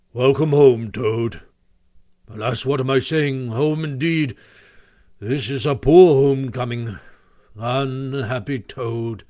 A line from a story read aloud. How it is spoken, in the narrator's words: He came solemnly up to Toad, shook him by the paw, and said